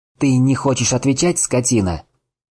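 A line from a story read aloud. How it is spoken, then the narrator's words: Shout. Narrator (Russian): крикнул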